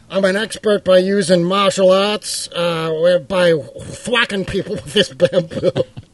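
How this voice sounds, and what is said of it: Rhode Island accent. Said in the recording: “Rhode Island accent”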